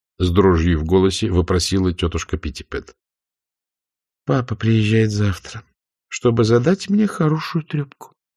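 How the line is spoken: Grim announcement. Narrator (Russian): мрачно объявила Скарлетт

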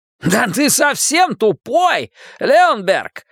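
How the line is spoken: Furious exclamation. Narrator (Russian): вне себя воскликнул Харви

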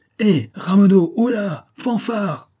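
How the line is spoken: Shouting. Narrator (French): criait Octave

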